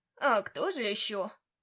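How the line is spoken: Old man's wry grunt. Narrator (Russian): хмыкнул старичок

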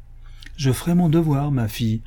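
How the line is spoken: Sad reply. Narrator (French): répondit tristement Rusticus

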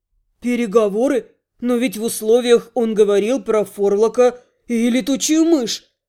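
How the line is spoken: Bewildered mumble. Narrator (Russian): Растерянно пробормотал принц Арсин

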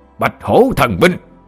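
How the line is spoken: Loud roar. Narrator (Vietnamese): cậu đại gia … lớn giọng gầm lên

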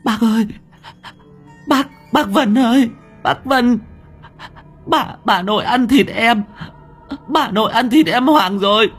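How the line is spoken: Stammering child. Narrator (Vietnamese): Thằng cu lắp bắp

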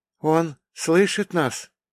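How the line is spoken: Tired question. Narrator (Russian): устало спросила она

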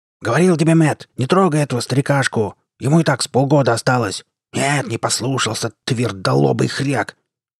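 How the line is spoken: Small man's furious yelling. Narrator (Russian): Орал взбешенно щуплый и лупоглазый мужичок небольшого роста

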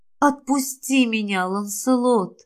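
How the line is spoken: Breathless whispered plea. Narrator (Russian): Шепотом попросила я, млея от осторожных прикосновений мужчины

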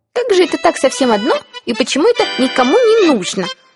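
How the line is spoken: Squeaking mouse. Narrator (Russian): пискнула мышь

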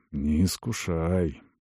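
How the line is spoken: Muttered. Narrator (Russian): пробормотал он

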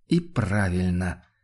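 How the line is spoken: Quiet agreement. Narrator (Russian): негромко согласился Ваналин

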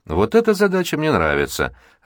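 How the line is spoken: Laughing loudly. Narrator (Russian): расхохотался Виктор

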